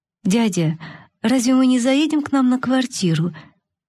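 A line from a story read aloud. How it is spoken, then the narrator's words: Timid girl's question. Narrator (Russian): несмелым голосом спросила девочка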